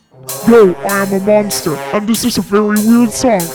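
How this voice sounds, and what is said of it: Weird monster character voice. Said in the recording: “my weird monster voice... a weird monster voice”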